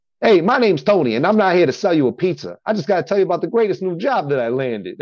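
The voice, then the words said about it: Put-on Sopranos-style Italian-American accent. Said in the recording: “it's not even really Italian. It's just like that Sopranos ... I just do this Italian accent”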